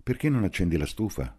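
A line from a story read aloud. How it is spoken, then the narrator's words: Plain. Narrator (Italian): gli chiese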